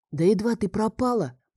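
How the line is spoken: Whisper. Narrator (Russian): проговорил он тоже шепотом

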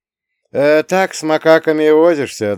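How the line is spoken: Old man's good-natured chuckle. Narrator (Russian): добродушно хмыкнул дед Леша

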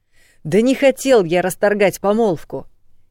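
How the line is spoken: Sudden bark. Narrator (Russian): неожиданно рявкнул он

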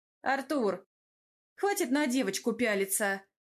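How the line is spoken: Stern rebuke. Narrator (Russian): Строго одернула парня Тамара

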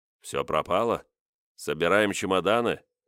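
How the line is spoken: Grim smirk. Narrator (Russian): мрачно усмехнулся один из присутствующих

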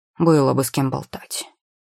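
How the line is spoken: Stubborn bird's snort. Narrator (Russian): фыркнул упрямый ворон

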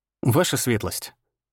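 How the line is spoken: Calm. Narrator (Russian): сказал спокойно

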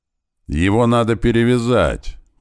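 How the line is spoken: Doctor shouting. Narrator (Russian): крикнул док

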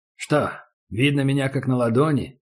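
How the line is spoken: Calm question. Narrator (Russian): спокойно спросил Убер

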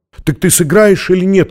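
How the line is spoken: Shout. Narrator (Russian): крикнула она

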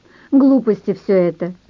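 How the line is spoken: Laughing. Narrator (Russian): рассмеялась Наташка

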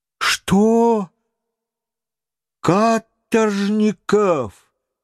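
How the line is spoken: Exclaimed. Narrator (Russian): воскликнул Паганель

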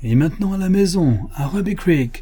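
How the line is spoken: Exclaimed. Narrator (French): s'écria Buffalo Bill

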